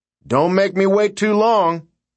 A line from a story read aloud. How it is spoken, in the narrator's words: he shouted